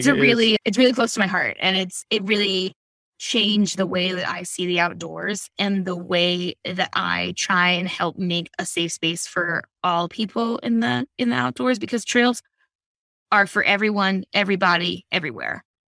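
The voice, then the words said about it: Choked-up, emotional voice. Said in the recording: “I'm getting a little choked up”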